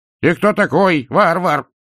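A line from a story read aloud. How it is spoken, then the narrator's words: Barking. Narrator (Russian): рявкнула она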